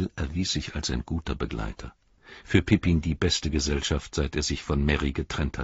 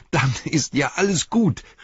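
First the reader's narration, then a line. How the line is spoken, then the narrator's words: Called out. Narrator (German): rief er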